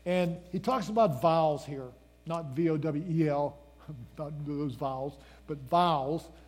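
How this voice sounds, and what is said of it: Pennsylvania accent. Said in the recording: “That's my Pennsylvania accent kind of kicking in there. You can't tell whether I'm saying a letter or a word.”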